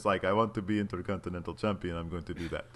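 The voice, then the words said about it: Imitated Cesaro accent, Dracula-like. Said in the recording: “That's my Cesaro accent... You sound like Dracula.”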